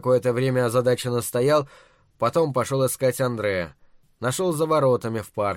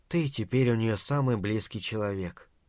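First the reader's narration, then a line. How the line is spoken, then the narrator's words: Whispered. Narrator (Russian): прошептала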